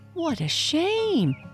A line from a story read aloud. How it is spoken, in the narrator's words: cried all the geese together